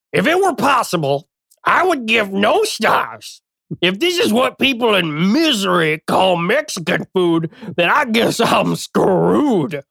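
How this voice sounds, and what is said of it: Reading in a funny voice. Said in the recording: “Bad Reviews in a Funny Voice ... read this bad review for Mi Hacienda in a funny voice”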